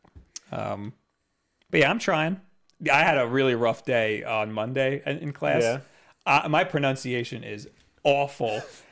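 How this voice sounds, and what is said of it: Heavy New York accent. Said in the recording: “my heavy New York accent ... I have a thicker New York accent than I think you do ... my vowels are all messed up from that”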